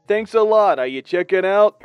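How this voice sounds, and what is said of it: Rough thick Brooklyn accent. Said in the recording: “a rough Brooklynese accent thick like marinara sauce... Sometimes he sounded like a supporting actor from a De Niro movie.”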